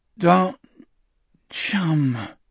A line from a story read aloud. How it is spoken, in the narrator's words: Richard muttered